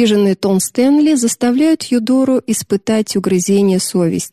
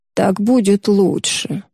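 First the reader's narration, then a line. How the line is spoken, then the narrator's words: Mumbling. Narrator (Russian): бормочет она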